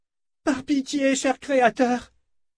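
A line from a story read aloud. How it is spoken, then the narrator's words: Exclaiming. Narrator (French): s'exclama-t-elle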